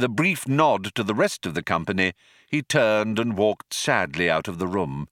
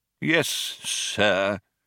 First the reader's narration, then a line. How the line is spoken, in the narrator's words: said the old man coldly